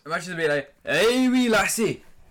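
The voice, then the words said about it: Put-on Scottish accent. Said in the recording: “imagine if everyone in America spoke like a Scottish accent”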